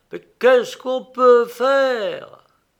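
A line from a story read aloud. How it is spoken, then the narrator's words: Breaking-off exclamation. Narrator (French): s'écria-t-il en s'interrompant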